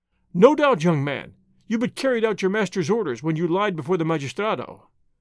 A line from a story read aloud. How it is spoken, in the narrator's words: he said